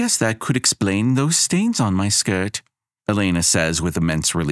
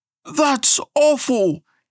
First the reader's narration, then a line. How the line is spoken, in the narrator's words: yelps someone behind Elena